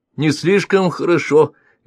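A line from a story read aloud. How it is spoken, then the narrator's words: Cheerful objection. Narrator (Russian): весело возразил Константинов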